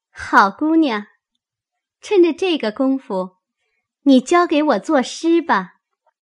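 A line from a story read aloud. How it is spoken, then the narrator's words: Laughing. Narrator (Chinese): 香菱笑道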